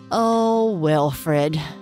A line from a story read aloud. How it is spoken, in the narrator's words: Gianna said with a deep sigh